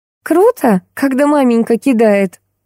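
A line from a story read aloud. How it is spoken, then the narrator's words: Loud laughter. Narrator (Russian): захохотала Джулия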